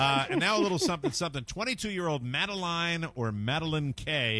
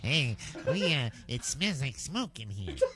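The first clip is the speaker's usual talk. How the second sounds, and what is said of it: Imitating a roach's voice. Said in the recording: “That's my roach impression.”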